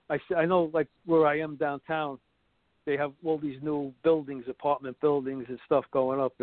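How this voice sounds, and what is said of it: Brooklyn accent. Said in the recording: “another thing that gives away where I'm from is when I start to speak. The Brooklyn accent”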